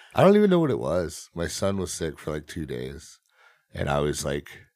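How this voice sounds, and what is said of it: Slightly raspy, sick-sounding voice. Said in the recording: “Is my voice really bad right now? ... It's a little sicky. ... A little raspy? ... A little bit.”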